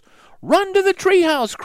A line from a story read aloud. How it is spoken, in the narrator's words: cried Annie